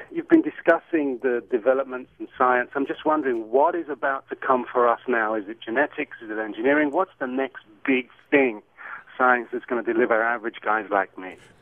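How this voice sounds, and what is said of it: British accent. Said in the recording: “I love your accent ... it's not an L.A. accent ... It is from the UK ... the accents of the UK”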